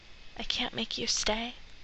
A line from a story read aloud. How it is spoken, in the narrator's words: Sam whispers